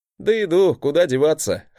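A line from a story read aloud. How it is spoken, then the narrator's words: Glad chuckle. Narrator (Russian): хохотнул я, радуясь, что в этот раз мой брат вернулся невредимым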